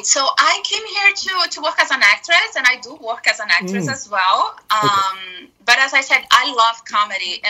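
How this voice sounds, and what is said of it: Thick foreign accent. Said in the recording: “my accent is too thick”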